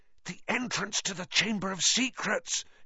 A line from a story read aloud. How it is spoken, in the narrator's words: he said hoarsely